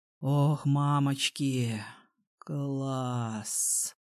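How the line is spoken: Pleasured moan. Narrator (Russian): простонал Саша, чувствуя, как по его чувственной головке мягко проскальзывают половые губки и нежные стеночки мокрого влагалища

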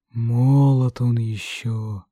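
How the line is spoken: Sighing. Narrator (Russian): вздохнул Олег

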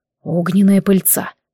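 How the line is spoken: Sigh. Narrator (Russian): вздохнул

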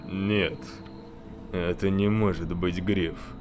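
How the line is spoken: Man muttering. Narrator (Russian): бормотал мужчина

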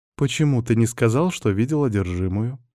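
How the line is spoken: Smiling, barely audible question. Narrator (Russian): с улыбкой спросила она, но еле слышно

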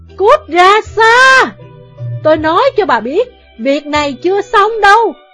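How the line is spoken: Mother's loud yell. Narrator (Vietnamese): Mẹ Vương Hinh chỉ hét lớn

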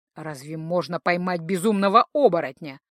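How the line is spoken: Skeptical snort. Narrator (Russian): хмыкнул капитан Бобров

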